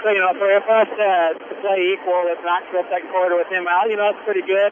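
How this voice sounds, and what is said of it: Loud, raised voice over noise. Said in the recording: “I feel like I'm yelling over the band here.”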